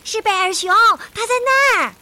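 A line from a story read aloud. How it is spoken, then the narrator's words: Birds shouting together. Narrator (Chinese): 鹪鹩、猫头鹰和乌鸦在空中一起喊了起来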